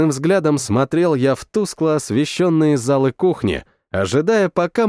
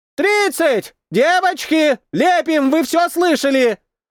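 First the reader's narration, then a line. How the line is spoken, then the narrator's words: Distant shout. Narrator (Russian): Закричал кто-то из глубины кафешки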